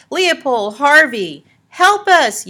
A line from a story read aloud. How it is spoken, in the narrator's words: yelled Morton